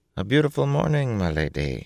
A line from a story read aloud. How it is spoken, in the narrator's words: he murmured